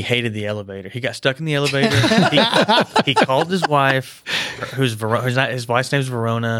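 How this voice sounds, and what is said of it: Usual voice. Nothing is said of it.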